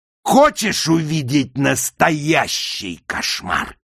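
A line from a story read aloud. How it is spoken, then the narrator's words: Barking. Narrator (Russian): рявкнул Пластик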